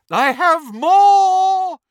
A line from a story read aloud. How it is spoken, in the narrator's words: shrieked Professor Trelawney from over the banisters